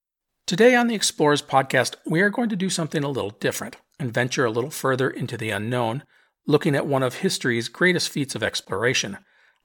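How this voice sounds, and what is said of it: Voice sounds off from illness. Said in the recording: “I am recovering from an illness, and my voice isn't quite what it normally is ... I sound a little weird”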